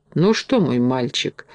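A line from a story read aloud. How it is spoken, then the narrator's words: Hesitant, after deep sigh. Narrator (Russian): решился, наконец, капитан, глубоко вздохнув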